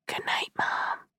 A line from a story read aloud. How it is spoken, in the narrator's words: I whisper every night